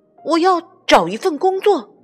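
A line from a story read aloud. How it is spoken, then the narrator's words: Shouting. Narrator (Chinese): 约翰喊道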